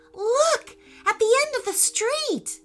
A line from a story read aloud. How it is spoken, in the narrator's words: said Eli excitedly